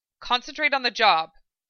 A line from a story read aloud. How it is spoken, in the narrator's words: Hawkeye snapped